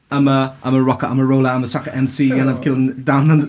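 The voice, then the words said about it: Rapping in put-on London accent. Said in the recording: “I did it in more of a like a London accent ... it wasn't your real voice.”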